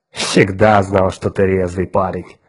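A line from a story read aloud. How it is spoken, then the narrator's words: Mocking, from afar. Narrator (Russian): насмешливо сказал Улькворн издалека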